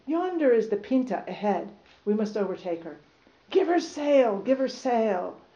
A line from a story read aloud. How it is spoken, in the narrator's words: he exclaimed